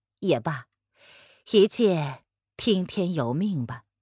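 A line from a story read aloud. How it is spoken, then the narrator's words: Sighing old man. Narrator (Chinese): 老头子叹了口气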